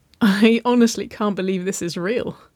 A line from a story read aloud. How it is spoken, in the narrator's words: she chuckled